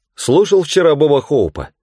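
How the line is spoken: Loud question. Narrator (Russian): громко спросила Джулиана

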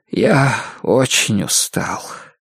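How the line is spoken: Weary sigh, muttering. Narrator (Russian): Энсел глубоко вздохнул и пробормотал

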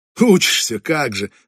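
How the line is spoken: Loud laughter. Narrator (Russian): расхохотался я

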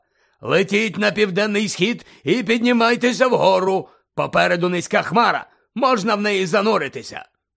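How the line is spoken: Shouting. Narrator (Ukrainian): крикнув Муді

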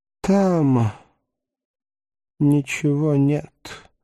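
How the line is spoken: Hoarse trembling mutter. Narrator (Russian): хрипло пробормотал Даймон, губы его тряслись

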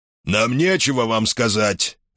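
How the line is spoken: Angry bark. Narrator (Russian): рявкнул министр обороны

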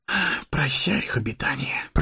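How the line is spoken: Whispered. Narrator (Russian): прошептал Сэмми

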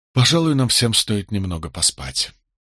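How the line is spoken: Tired suggestion. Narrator (Russian): устало предложил я

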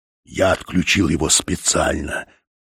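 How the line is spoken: Hissed. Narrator (Russian): прошипел Фаш

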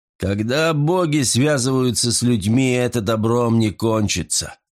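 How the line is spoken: Grumbling. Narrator (Russian): проворчал Калиба

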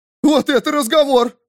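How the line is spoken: Excited yell. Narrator (Russian): завопил Вистер, внезапно оживившись

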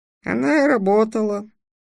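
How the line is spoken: Sighing gnome. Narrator (Russian): вздохнул гном

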